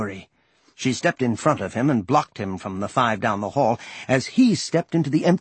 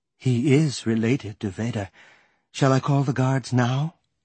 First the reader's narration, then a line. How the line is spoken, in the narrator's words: He sighed